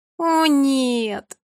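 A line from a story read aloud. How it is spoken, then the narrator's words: Moaning. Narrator (Russian): застонала Фея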